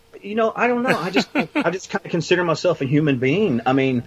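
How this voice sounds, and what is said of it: Southern US accent. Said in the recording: “being from the South as well, because I was born and raised here. Which obviously, I'm sure my accent just screams over this mic. ... It does.”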